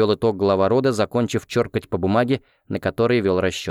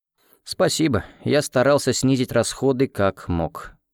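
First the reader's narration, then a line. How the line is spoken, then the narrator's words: Tired voice. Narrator (Russian): утомленным голосом отозвался я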